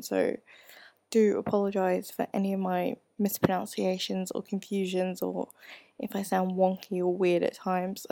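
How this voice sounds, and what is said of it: Mixed English, Australian, American accent. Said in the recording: “my accent is really mucked up. It's a cross between English, Australian, and American”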